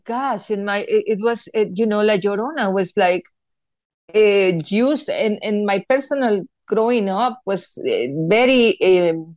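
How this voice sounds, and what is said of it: Speaks with a noticeable accent. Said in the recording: “my accent, of course, that I haven't lost. ... It's beautiful. I love it.”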